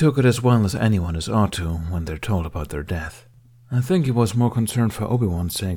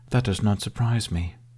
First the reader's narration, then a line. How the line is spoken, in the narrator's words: said quietly